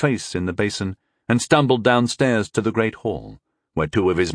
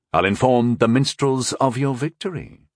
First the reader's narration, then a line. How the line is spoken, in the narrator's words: Rondel replied dryly